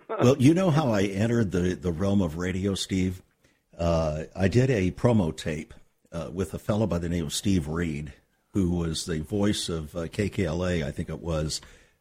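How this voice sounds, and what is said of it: Polished radio announcer voice. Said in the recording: “your perfect radio voice. I mean, when you just talk to people in the aisle of a convention, you know, you sound like you're on the radio”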